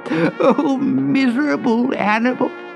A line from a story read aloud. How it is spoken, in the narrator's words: sobbed